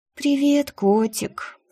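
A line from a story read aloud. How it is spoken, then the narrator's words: Sleepy murmur. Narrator (Russian): Сонно пробормотала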